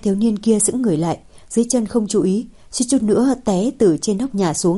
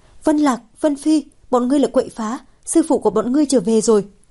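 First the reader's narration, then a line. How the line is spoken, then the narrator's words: Shouting. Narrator (Vietnamese): Thiếu nữ la lên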